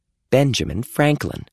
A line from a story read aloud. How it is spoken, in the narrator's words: Amy said